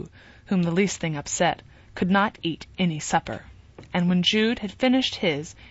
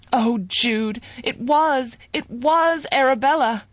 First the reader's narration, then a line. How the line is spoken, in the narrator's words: cried Sue